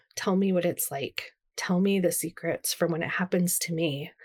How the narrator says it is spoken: whisper

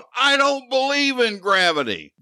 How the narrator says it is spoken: shout

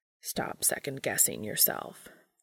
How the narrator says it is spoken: Cass grumbles

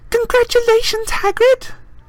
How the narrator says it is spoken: Hermione squealed

